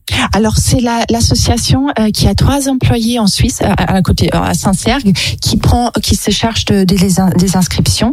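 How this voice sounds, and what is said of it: German-Swiss accented French. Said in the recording (French): “à votre accent, je voudrais dire que vous êtes également suisse ... Je suis allemande. Mais j'ai travaillé pendant 10 ans en Suisse pratiquement ... j'ai vécu en Belgique, donc ça fait un mélange plein de choses”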